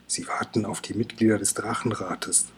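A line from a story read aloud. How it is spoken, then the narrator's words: Whisper. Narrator (German): flüstert Kokosnuss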